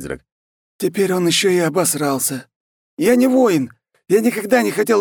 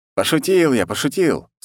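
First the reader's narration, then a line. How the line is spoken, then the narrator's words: Plain. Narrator (Russian): сказал я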